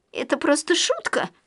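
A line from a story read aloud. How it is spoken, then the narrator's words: Pitiful babbling, near tears. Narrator (Russian): Жалко пролепетала та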